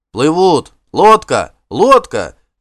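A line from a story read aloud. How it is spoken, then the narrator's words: Crowd shouting. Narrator (Russian): закричали барланцы вокруг нее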